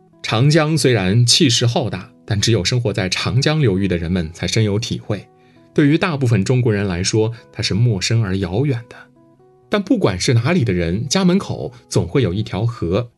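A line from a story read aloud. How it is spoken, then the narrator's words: Smiling reply. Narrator (Chinese): 乔宇面含微笑的回道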